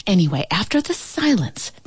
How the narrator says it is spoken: the ant whispered

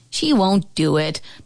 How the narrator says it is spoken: Bobby Eklund finally scoffed

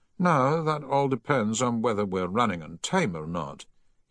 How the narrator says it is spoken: he replied a little wearily

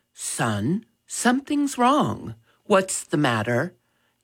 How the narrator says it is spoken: Dad gently asked

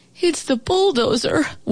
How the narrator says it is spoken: wailed the old house

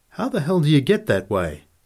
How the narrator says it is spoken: came out from under the cap sharply at Nick

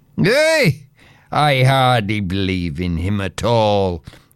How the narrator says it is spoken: cried the young men with a laugh

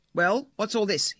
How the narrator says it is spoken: barked, clearly angry

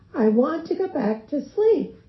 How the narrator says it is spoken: she cried out

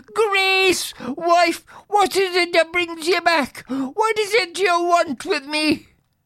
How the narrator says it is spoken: shrinking and shuddering, the poor man exclaimed

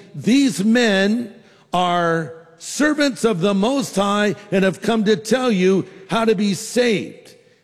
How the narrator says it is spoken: She was shouting

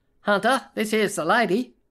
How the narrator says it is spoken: she shouted over Oprah in a flat nasal

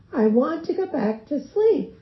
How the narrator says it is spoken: cried out

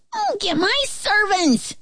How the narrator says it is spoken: he shouted

